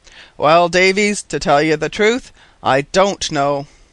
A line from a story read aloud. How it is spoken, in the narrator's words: he said in a rather solemn tone